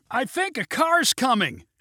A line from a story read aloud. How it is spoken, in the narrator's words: shouted Neil